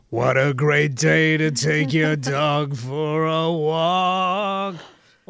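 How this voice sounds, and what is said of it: Poor sung imitation of another person's voice. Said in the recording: “my horrible Louis Armstrong impression ... That's not your real singing voice”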